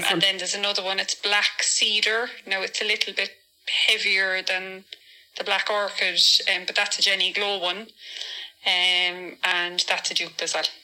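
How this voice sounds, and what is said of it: Cork Irish accent. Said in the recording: “Where'd she get that Cork accent from?”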